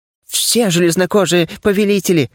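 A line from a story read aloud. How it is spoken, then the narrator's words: Frightened spirit's rapid chatter. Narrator (Russian): испуганно затараторил дух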